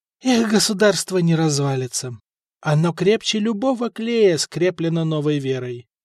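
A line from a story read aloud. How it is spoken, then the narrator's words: Sad wry chuckle. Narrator (Russian): грустно усмехнулся Александр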